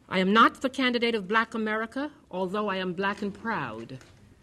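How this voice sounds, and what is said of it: Caribbean accent with a lisp. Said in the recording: “She sounded different. She had a lisp. Plus, she had an accent. She was from the Caribbean. She sounded funny.”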